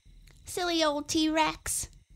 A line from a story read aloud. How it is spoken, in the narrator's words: he shouted